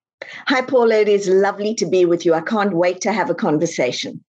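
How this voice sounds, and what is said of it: South African accent. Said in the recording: “that Texas accent that you have there ... Deeply Texas, right? All the Texan way from South Africa ... I absolutely love your accent.”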